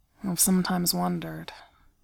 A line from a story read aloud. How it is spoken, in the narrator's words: he says, tongue thick and voice slurred